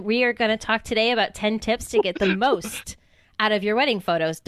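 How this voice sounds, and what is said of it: Put-on evil doctor accent. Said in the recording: “Don't laugh at my accents. ... That was an Arnold accent, ... I was going for more like evil doctor, like evil”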